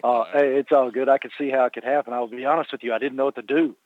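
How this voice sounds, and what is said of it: Southern American accent. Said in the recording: “such a charming Southern accent”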